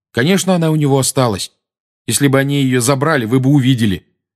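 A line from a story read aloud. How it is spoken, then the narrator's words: Angry. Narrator (Russian): сердито сказал Гарри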